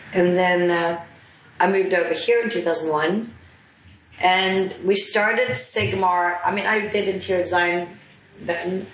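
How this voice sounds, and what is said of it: Scandinavian accent with American influence. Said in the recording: “I'm Swedish. I'm half Swedish, half Danish. ... The accent comes from, I took my first BA in Stockholm in Sweden, and then I went on to study at Parsons in New York ... So the accent sort of stuck.”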